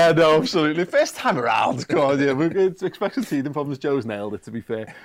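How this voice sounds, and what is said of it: Usual voice. Nothing is said of it.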